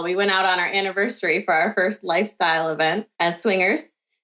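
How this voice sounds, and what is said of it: Midwestern American accent. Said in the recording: “I live in the Midwest of the US, so I'm sure you can already tell by my accent.”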